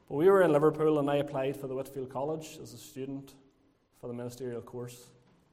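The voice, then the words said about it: Lurgan accent. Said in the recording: “they're wondering where my Scouse accent is. But I have a Lurgan accent instead”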